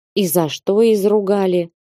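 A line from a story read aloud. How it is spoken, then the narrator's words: Gloomy. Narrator (Russian): Уныло говорит он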